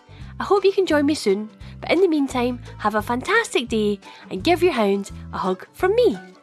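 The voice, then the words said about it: Scottish accent. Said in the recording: “that gorgeous Scottish accent”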